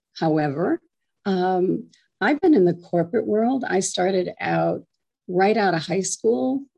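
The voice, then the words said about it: Hoarse, slightly strained voice. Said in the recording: “I have a little bit of laryngitis, so if I have to drink some water, bear with me.”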